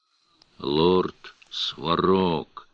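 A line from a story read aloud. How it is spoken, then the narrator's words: Muffled from under hood. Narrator (Russian): глухо донеслось из-под капюшона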